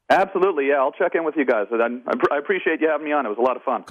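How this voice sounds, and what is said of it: Strong Canadian accent. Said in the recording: “He still has that accent, though. ... He's got a great Canadian accent. ... I love his Canadian. He is so Canadian. He is turbo Canadian.”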